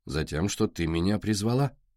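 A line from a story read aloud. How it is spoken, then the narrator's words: Dry reply. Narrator (Russian): сухо отозвался Костя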